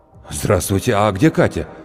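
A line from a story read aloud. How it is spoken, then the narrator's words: Breathless exhale. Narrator (Russian): выдохнул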